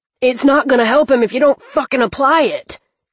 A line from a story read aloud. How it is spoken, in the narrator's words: Cleaver roared